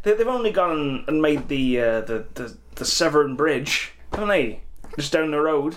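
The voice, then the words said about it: Wavering put-on West Country accent. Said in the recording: “Is this West Country or is it? ... I don't know where this accent is going. I'm just going to stick with Irish, I think. It's an easier one to do.”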